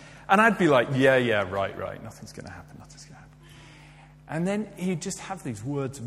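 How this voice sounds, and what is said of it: Usual voice. Nothing is said of it.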